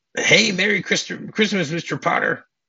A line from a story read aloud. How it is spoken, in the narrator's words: screams inside and goes